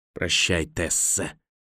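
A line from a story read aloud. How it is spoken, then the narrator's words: Hissed in ear. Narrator (Russian): прошипел он ей в ухо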